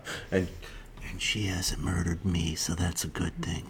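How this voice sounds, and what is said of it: Quiet creepy close-mic voice. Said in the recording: “creepy voice in the microphone ... I got really close. So I got to, like, tone down my voice.”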